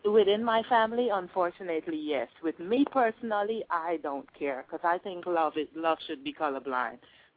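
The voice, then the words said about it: Speaks with an accent. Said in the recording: “I can hear that you have an accent”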